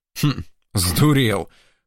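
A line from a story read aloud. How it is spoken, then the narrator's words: Calmer approving snort. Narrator (Russian): хмыкнул мичман уже спокойнее и вроде как с нотками одобрения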